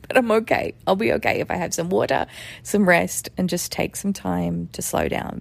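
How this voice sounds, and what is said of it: Slightly croaky voice. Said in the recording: “You probably hear in my voice, I'm a little bit croaky”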